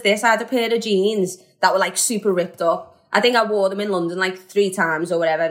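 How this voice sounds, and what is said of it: Strong Scouse Liverpool accent. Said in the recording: “my accent's got stronger. That's what all my London mates keep saying ... Scouse soil”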